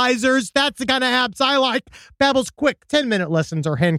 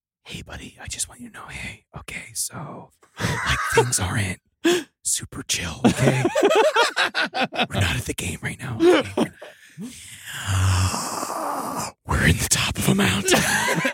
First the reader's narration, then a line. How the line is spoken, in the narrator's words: someone whispered into his ear